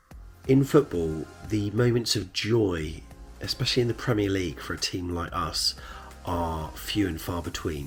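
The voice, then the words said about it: Quiet, hushed speaking voice. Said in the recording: “It's just gone 3 a.m. so I'm not raising my voice too loudly, otherwise this is going to wake a lot of people up”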